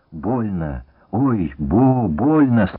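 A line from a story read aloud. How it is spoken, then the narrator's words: Wounded man groaning. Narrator (Russian): стонал раненый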